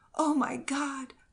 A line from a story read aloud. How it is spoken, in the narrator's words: cried the woman in the greatest anguish